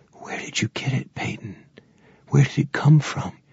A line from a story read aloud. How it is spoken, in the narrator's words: Over the rhythm, Lib whispered